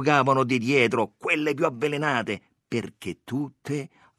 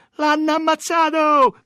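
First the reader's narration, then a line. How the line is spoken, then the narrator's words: Full-throated scream. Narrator (Italian): gridò una tutta gola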